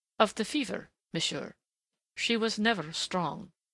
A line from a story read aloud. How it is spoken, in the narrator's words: he answered calmly enough